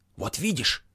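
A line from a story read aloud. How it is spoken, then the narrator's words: Furious whisper. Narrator (Russian): яростно зашептала Туся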